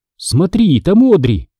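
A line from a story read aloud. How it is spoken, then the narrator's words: Surprised exclamation. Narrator (Russian): воскликнула она, неожиданно заметив копну темно-рыжих волос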